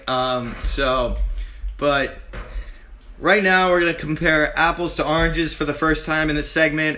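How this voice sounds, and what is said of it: Hoarse, strained voice. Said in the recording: “Our voices are a little shot from that scary Penn State game. ... My voice is not made for radio at this point.”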